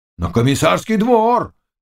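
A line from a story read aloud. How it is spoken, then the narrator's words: Several voices shouting. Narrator (Russian): крикнуло сразу несколько голосов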